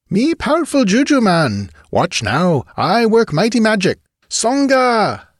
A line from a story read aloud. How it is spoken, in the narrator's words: His voice rose in a screech that drowned out the wildly clamoring drums